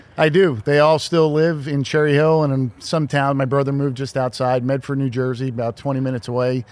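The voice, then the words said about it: Mild Philadelphia-area accent. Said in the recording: “your accent, it, it's not bad, but sometimes it comes out when you say my name with the A's ... It's not bad. It, it's really not bad ... Every once in a while it comes out”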